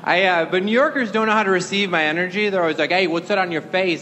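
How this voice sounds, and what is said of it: Wisconsin accent. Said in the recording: “I'm from Wisconsin, here. If you can tell that by my accent”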